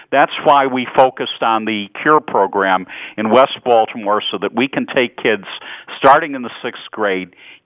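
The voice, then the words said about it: Chicago accent. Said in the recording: “I hear your voice in Chicago ... you've picked up my Chicago accent. One never loses that”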